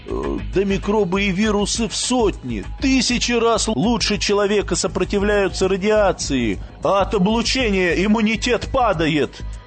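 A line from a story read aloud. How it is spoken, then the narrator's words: Old man shouting, losing control. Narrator (Russian): Теряя власть над собой, закричал старик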